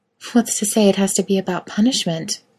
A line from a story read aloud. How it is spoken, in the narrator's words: Miranda murmurs